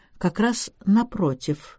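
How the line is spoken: Dry. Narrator (Russian): сухо произнес главный констебль

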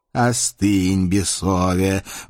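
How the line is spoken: Reproachful boom. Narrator (Russian): укоризненно прогудел Павлушечка

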